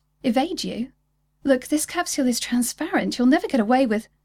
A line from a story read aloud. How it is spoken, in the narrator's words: He laughed harshly